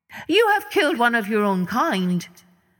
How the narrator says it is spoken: Punya called out to them

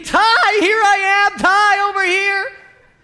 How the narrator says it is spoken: and screaming

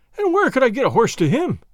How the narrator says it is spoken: cried Allan, turning on her with the same appearance of fury

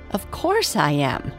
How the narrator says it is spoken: laughed Princess Winsome

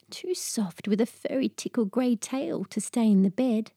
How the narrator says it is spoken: Henrietta whispered

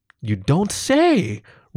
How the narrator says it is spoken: Reese exclaims

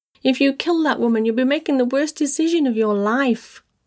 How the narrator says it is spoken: Marcus screeched

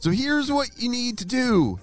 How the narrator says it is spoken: shouted Ava

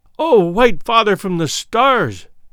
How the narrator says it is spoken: she cried

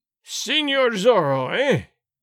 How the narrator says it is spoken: Gonzalez cried in a terrible voice

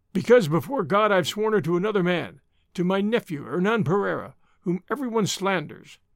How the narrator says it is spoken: answered Marais sulkily

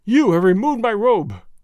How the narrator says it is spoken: he cried

